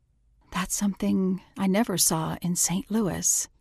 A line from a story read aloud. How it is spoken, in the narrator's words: murmured